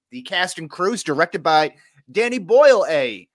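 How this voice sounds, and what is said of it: Put-on English accent. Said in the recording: “that's my English accent.”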